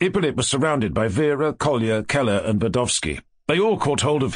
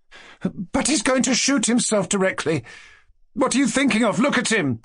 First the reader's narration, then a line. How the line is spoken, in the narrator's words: cried Vera, in great alarm